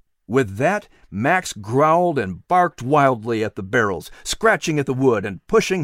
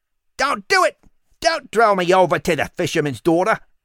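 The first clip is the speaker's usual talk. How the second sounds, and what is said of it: Shrill Cockney character voice. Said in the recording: “The rat screeched in a shrill Cockney English accent.”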